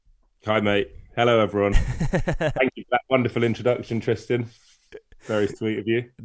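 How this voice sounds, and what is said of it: Croaky voice. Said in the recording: “I'm currently isolating with COVID. So apologies if my voice is a bit croaky.”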